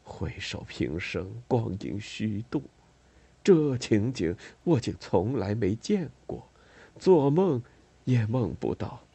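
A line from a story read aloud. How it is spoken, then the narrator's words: Dreamy murmur. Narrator (Chinese): 托德梦呓般喃喃着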